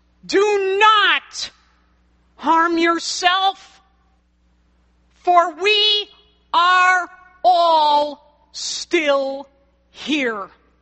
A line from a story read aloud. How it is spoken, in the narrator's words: a cry from the direction of the cell shouts